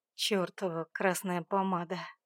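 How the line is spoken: Growled. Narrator (Russian): прорычал он

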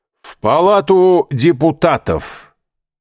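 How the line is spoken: Loud shout. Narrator (Russian): так, чтобы было слышно через дорогу, крикнул кучеру

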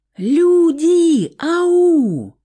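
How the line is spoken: Yelling at full strength. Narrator (Russian): что есть мочи, заорала Стаська

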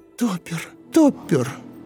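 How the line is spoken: Sobbing. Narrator (Russian): говорила всхлипывая

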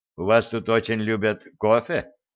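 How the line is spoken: Snorting. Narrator (Russian): хмыкнул Черныш

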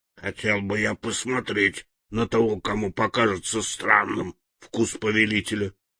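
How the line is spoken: Grumbled. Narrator (Russian): Медведь-топотун проворчал

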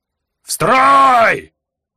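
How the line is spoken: Yelling. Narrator (Russian): заорал Жак

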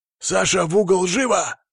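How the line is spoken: Barking. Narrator (Russian): рявкнул Игнат

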